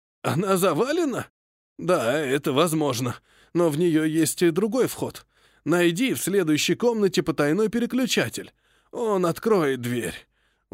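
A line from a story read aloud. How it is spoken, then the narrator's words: Tired, impatient. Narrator (Russian): устало ответил он, с нетерпением добавив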